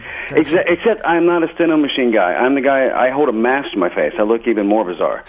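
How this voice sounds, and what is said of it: South Carolina regional accent. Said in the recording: “I can tell by your accent you're from someplace nice. ... Lexington, South Carolina.”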